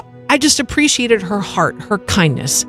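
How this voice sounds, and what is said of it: Emotional, voice close to tears. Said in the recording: “I don't know why I'm getting emotional”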